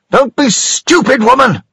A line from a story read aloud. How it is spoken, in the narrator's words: he shouted at her